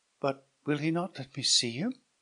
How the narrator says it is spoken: said Hippolyta mournfully

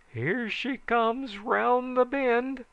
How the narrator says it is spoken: someone yelled

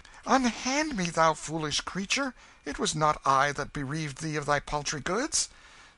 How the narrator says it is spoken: The king cried out in vexation

